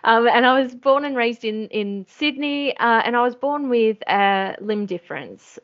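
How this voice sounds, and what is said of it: Australian accent. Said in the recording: “I uh, am Australian, you can probably tell by the accent.”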